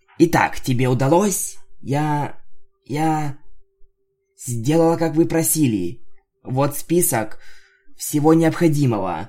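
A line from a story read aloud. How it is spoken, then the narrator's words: Timid. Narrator (Russian): робко сказала дакт тейп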